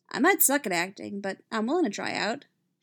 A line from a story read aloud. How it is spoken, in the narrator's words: she says